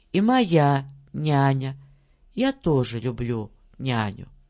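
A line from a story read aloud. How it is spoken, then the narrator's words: Calm tone. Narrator (Russian): Толстушка-сестра Лида спокойным тоном говорит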